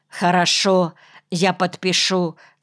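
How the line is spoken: Plain. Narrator (Russian): сказал он

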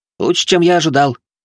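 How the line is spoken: Cheerful boy. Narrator (Russian): бодро ответил мальчишка

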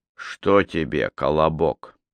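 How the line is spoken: Through gritted teeth. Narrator (Russian): сквозь зубы спросил сержант

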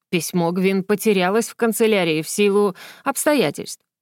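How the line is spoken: Dry reply. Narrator (Russian): сухо ответил Иврос

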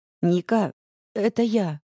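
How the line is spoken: Trembling, plaintive, bewildered. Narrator (Russian): голос Юли дрожит и звучит необычно жалобно и растерянно

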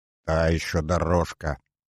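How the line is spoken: Strained grumbling. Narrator (Russian): натужно ворчал Вальцев, печатая шаг

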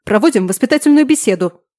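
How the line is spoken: Loud bark. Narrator (Russian): Рявкнуло так, что парень сжался

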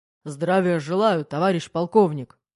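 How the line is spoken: Barked military greeting. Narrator (Russian): гаркнул майор

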